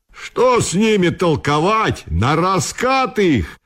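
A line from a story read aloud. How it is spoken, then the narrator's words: Group yelling. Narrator (Russian): вопил Толковников и его единомышленники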